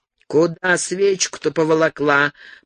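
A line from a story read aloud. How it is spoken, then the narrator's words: Grumbled. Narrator (Russian): проворчал ей вслед Ходж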